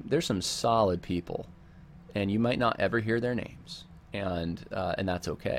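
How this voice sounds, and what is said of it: Subdued, quieter sick voice. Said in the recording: “You probably hear in my voice, I got the COVID ... a tone that's that's not you know 10 decibels below what it normally is”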